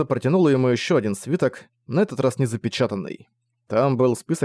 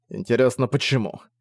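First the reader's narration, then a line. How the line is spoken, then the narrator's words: Grumbling. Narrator (Russian): пробурчал Зориан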